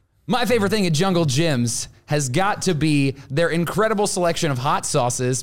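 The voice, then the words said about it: Wrestling ring announcer voice. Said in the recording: “ring call voice? ... in that announcer voice ... your announcer voice kind of sounds like Jim Carrey when you started out just a little bit”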